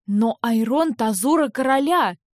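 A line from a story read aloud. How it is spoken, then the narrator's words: Exclaimed. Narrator (Russian): воскликнула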